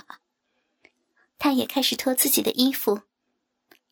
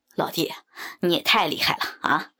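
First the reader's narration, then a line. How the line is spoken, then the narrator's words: Hearty laughter. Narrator (Chinese): 常老板哈哈大笑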